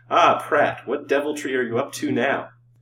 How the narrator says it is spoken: said, with a light laugh

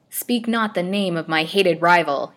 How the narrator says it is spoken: cried angrily

